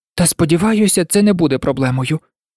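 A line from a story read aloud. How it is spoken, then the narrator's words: Sighing. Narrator (Ukrainian): Гаррі зітхнув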